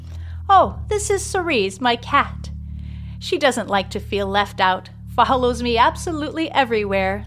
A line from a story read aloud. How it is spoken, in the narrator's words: laughs Charlotte